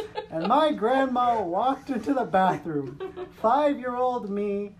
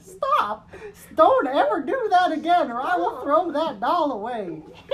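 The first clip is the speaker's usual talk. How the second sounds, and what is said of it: Put-on southern accent. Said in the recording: “I love how the grandma suddenly has a southern accent.”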